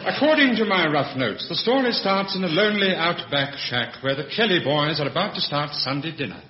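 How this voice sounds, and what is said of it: Posh radio announcer voice. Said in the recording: “his posh radio voice”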